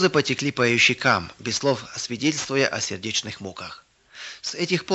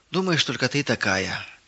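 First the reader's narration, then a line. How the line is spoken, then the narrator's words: Heavy sigh. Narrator (Russian): тяжело вздохнула Ирина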